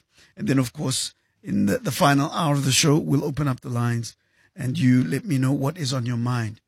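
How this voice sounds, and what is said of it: Strained, unwell-sounding voice. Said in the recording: “As you can hear, my voice is suffering a little bit... after an epic battle with the flu”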